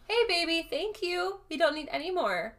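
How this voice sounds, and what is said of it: Soft sing-song teacher voice. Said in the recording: “Gotta get my teacher voice in ... I sounded like Kylie Jenner doing this”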